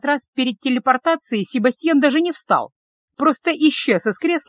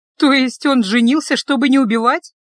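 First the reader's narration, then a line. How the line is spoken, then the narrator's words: Slightly hysterical laugh. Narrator (Russian): несколько истерично хохотнула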